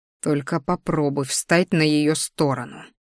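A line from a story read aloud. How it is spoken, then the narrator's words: Hissed mentally. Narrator (Russian): мысленно зашипел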